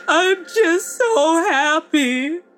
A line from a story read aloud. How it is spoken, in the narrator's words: she chokes out through her sobs